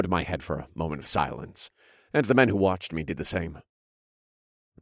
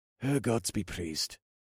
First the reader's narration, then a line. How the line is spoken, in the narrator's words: a guard murmured